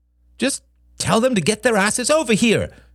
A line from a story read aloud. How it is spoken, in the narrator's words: snapped Helen